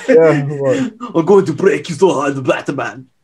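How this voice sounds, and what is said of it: Put-on Austrian accent. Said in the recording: “Arnold Schwarzenegger ... It's got an Austrian accent.”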